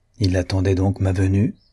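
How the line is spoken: Plain. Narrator (French): dit Aurélie

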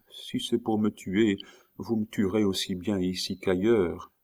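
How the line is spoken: Barely audible mumble. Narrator (French): elle ajouta d'une voix à peine intelligible

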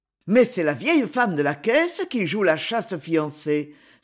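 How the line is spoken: Duke exclaiming. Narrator (French): s'écria le duc

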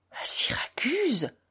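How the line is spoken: Bewildered exclamation. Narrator (French): s'exclama le capitaine comme s'il ne comprenait pas encore

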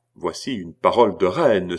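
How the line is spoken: Solemn exclamation. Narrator (French): s'écria le roi avec solennité

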